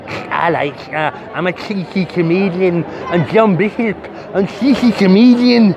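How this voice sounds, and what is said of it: Imitates another person's voice. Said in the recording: “That was my John Bishop impression.”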